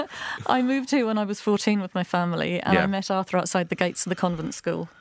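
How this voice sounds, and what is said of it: English accent. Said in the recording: “I'm hearing an English accent, I think, from you.”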